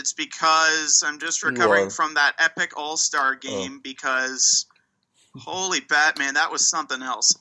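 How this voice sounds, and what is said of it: Strained voice, losing his voice. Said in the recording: “If it sounds like I'm losing my voice”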